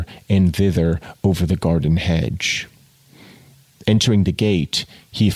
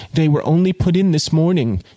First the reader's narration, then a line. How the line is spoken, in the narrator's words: she cried, stimulated to pursue in spite of her lover's presence